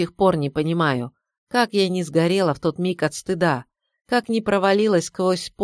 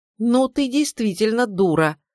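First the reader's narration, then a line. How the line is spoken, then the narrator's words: Indignant exclamation. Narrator (Russian): воскликнула возмущенно Нюра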